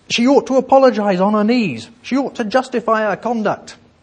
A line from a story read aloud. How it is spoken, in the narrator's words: Many voices cried out